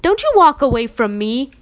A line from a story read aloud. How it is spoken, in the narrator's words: he yelled